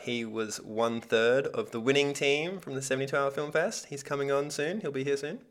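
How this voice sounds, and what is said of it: Australian accent. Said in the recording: “In my Australian accent”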